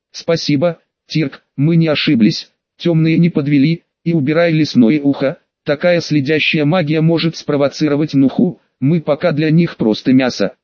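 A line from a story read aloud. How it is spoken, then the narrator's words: Plain. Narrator (Russian): ответил Черноцвет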